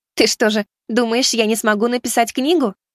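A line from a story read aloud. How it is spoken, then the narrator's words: Cheerful, smiling. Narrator (Russian): весело улыбнулась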